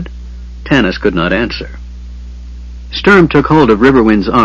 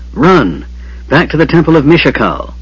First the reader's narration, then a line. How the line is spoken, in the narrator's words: Tanis gasped with pain